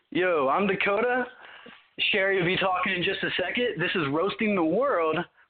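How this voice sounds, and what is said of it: Southern American accent. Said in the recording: “Mine's all the southern... my mind comes out just southern... part of living in Tennessee, talking southern, y'all”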